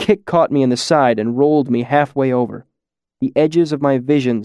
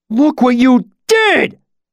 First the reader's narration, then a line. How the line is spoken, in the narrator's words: Pike continued to howl above me